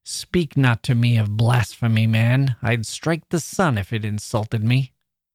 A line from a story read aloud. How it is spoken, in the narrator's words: the angry captain snaps back